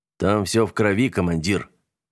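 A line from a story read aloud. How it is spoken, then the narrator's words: Gloomy remark. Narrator (Russian): мрачно заметил Нагорный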